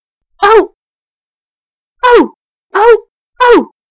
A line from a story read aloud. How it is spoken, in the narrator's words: they cried